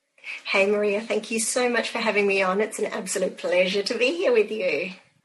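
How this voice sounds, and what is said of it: Australian accent. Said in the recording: “as you can tell by my accent, I'm all the way across the other side of the globe. I live in Perth in Western Australia.”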